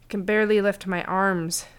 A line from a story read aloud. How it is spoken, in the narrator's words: Sim groaned in an attempt to break the silence